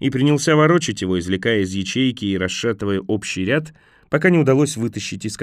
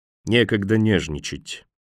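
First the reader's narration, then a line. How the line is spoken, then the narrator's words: Gloomy, to himself. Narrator (Russian): мрачно сообщил он сам себе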